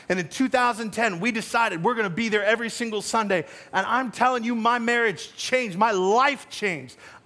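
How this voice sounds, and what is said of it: Loud, passionate, near-yelling speech. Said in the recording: “I'm not yelling at you. I know it's coming out all loud and stuff. I'm just passionate about it.”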